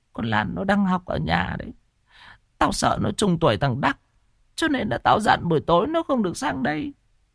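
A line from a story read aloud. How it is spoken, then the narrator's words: Sobbing faint whisper. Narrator (Vietnamese): Bà Động sụt sùi thều thào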